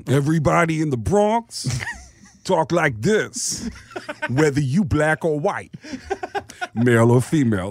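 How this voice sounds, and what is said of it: Exaggerated Bronx accent impression. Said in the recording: “everybody in the Bronx sounds like Tracy Morgan ... Everybody has this crazy, horrifying accent.”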